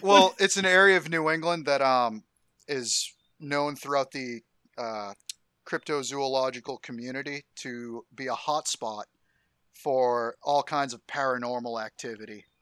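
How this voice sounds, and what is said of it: Regional New England accent. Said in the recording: “people can guess by your accent where you're from”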